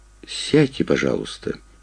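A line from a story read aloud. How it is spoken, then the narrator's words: Soft but insistent request. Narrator (Russian): мягко, но настойчиво попросил Виктор Сергеевич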